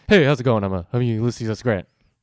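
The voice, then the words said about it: Casual impression of Ulysses S. Grant. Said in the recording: “I don't think that's what Grant sounds like”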